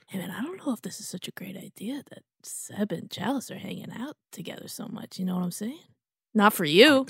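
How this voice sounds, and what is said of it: Whispering. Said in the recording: “whispering in my ear ... I'm whispering in your ear”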